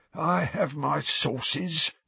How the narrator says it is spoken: said Filch, in a self-satisfied hiss

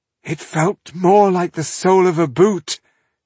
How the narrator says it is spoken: she groaned

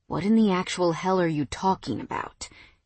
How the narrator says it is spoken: He asked with such seriousness

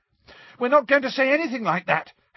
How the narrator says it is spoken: Harry shouted

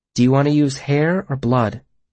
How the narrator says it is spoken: She asked softly

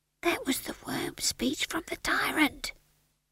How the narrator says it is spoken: whispered Howell

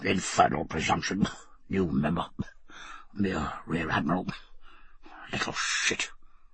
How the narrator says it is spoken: His voice trailed away in a series of coughs and grunts, through which could be heard

